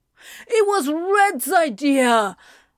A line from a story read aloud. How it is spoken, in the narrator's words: Anthony cried